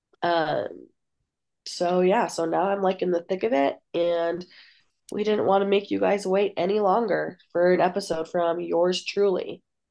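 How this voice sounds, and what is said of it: Sick-sounding voice. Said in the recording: “I don't know if you can tell by my voice, but I am still sick.”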